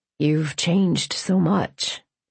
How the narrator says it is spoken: he murmured

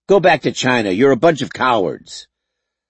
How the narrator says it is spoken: Our diplomat was less than diplomatic when he shouted

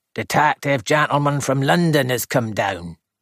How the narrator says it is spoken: he grunted

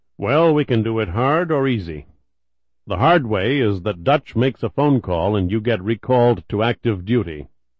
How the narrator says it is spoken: Greer said sternly

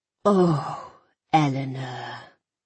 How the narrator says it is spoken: she said, her voice oozingly oleaginous

